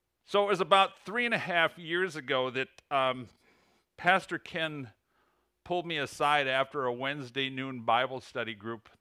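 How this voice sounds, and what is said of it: American Midwestern Illinois accent. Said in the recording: “I said it with my Illinois accent”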